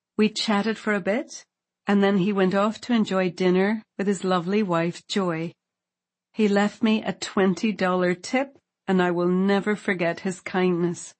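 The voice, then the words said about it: Irish accent. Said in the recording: “do I detect a bit of an accent? ... I'm from Ireland.”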